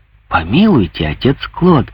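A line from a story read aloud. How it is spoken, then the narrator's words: Exclaimed. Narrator (Russian): воскликнул Куактия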